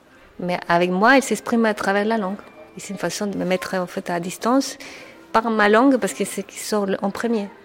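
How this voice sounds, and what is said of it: Strong Chilean accent in French. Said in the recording (French): “j'ai un accent très fort, même après 25 ans ... votre pays, le Chili”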